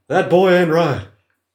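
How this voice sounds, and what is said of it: Hank Hill cartoon character impression. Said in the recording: “impersonate Hank Hill”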